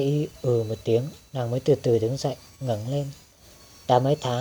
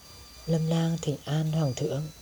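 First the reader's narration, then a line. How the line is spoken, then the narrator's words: Soft. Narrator (Vietnamese): Lâm Lang khẽ nói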